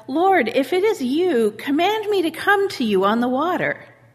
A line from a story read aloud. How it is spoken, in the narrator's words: Peter called out